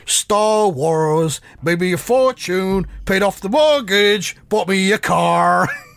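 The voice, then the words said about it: Imitated Dave Prowse accent, sung. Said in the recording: “I'll try and do it in the Prowse accent.”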